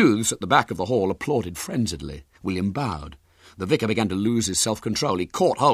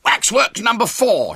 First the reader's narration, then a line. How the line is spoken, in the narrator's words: shouted William hoarsely